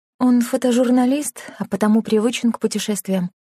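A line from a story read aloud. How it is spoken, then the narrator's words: Muttered. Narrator (Russian): пробормотала она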